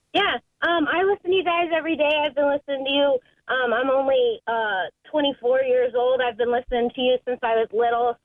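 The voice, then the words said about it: Adorable cartoon-character-like voice. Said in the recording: “You sound adorable. You kind of sound like Lisa Simpson. You should be animate. You should be the voice of like characters. ... I can kind of hear like a character.”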